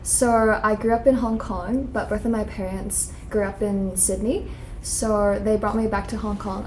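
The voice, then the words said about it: Accent between Australian and American. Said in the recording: “it's not like Australia, but it's not like American, but I've gotten like both from people”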